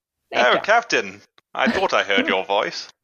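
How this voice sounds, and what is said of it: Put-on film character voice. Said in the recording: “You want to be Fletcher Christian? ... do the voice?”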